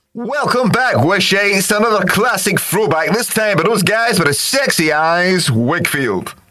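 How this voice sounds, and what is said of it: Exaggerated DJ radio voice. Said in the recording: “using his radio voice.”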